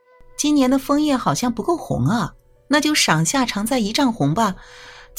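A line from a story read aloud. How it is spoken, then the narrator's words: Flat, indifferent. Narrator (Chinese): 只淡淡说了一句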